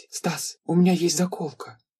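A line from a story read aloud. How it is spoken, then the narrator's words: Whisper. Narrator (Russian): шепот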